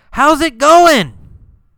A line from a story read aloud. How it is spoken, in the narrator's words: What did he yell